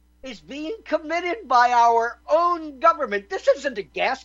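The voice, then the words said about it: Loud, raised, impassioned voice. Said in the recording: “the censorship I am raising my voice about, the censorship I'm spitting all over my mic for”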